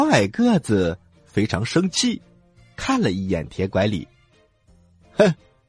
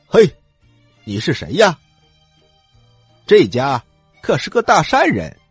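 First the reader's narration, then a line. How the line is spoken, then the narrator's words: Loud question. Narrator (Chinese): 铁拐李大声的问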